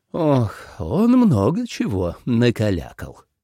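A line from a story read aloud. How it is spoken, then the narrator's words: Sighing. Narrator (Russian): вздохнул Кофа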